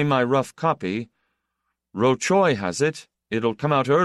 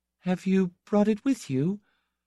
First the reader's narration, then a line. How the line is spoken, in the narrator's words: Ladislas' wife began to gather courage, she asked, in her soft voice